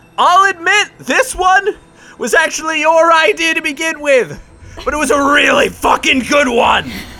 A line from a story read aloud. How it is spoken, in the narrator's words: he shouts at the top of his lungs